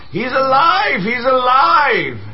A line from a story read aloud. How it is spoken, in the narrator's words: she's shouting at the top of her lungs